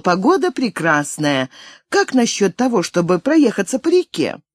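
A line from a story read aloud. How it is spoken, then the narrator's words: Girl exclaiming. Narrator (Russian): девушка воскликнула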